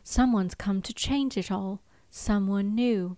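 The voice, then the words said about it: Imitated character voice, middling attempt. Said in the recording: “trying to do my best Drusilla voice ... It's not bad. It's like a it's like a six out of ten”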